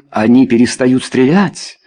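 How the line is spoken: Exclaiming. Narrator (Russian): воскликнул лорд Куртней

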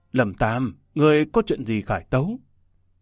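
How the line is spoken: Soft displeased voice. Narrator (Vietnamese): Hoàng đế nhíu mày khẽ bảo

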